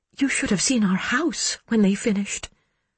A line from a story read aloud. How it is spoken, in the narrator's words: she murmured